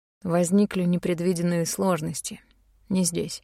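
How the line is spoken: Quiet reply. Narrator (Russian): тихо ответил Рейн

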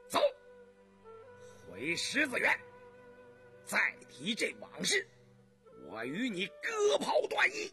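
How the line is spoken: Stern, sharp. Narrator (Chinese): 胤禛…厉声地说道

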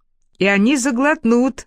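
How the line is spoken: Laughing. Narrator (Russian): рассмеялся Байт

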